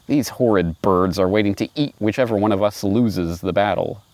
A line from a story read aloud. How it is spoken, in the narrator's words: grumbled the lion quietly